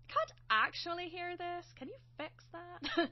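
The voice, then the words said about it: Bad put-on Irish accent. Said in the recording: “me doing a very bad Irish accent ... a bad Sophie voice”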